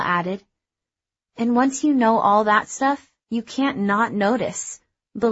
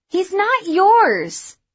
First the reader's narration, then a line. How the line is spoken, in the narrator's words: Layla hollered back